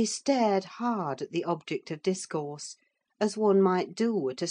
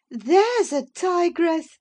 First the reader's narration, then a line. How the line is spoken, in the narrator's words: exclaimed Mrs